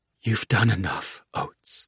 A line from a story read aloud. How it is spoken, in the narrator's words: she whispered